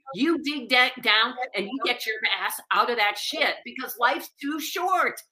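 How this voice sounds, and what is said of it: Loud, raised passionate voice. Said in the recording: “why are you yelling? ... when I raise my voice, we're yelling ... I get passionate”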